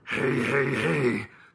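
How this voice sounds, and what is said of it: Fat Albert cartoon character impression. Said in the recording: “Fat Albert impersonation. Who knew he was the Rich Little of our generation?”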